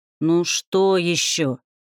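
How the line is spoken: Grumbling. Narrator (Russian): пробурчала Умма

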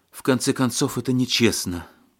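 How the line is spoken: Breathed out. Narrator (Russian): выдохнула Александра

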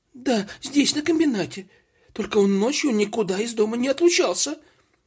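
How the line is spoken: Frightened reply. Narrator (Russian): испуганно ответила кассир

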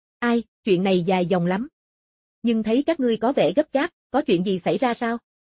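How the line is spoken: Plain. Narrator (Vietnamese): Mộ Phong hỏi

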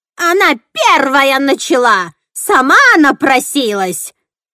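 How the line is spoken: Old witch yelling. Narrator (Russian): орала старая ведьма

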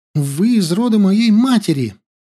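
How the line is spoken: Joyful exclamation. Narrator (Russian): С невольной радостью воскликнула она

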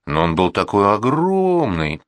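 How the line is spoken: Drawling. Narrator (Russian): протянула она

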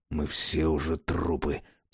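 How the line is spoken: Raven muttering. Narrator (Russian): пробормотал ворон

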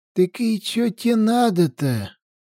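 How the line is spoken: Timid old man asking. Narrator (Russian): робко спросил один из стариков

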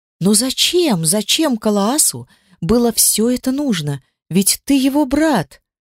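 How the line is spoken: Exclaimed. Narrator (Russian): воскликнула Дельфи

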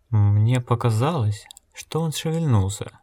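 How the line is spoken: Uncertain. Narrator (Russian): неуверенно сказал Гиз

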